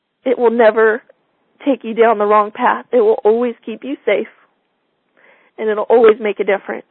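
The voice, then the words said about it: Choked-up, emotional voice. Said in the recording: “it's been one that's a little choked up for me”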